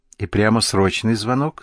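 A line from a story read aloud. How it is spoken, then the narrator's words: Plain. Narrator (Russian): спросил Герка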